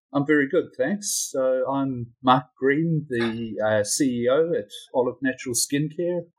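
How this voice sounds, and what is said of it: New Zealand accent. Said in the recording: “I've got a slightly strange accent, that's because I do. I'm down here in New Zealand”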